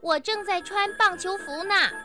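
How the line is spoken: Calling out. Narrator (Chinese): 小熊哥哥叫道

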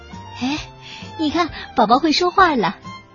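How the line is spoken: Amazed exclamation. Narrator (Chinese): 他们会惊叹的说

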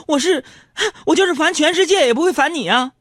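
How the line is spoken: Laughing. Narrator (Chinese): 我就笑着说

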